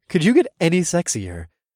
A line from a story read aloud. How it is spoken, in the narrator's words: I laughed at my own obscene luck